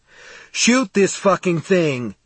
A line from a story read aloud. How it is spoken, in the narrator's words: Steve yelled